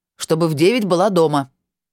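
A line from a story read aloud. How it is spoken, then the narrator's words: Stern. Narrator (Russian): строго сказал он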